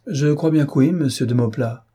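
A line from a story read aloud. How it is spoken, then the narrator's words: Cheerful reply. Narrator (French): répondit-elle gaiement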